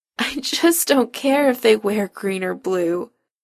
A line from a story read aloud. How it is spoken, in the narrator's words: Chris whines into Adam's neck